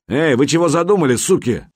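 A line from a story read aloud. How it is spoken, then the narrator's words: Man yelling angrily. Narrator (Russian): заорал мужик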